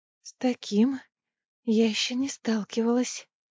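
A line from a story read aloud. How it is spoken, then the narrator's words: Whispered. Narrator (Russian): прошептала Неста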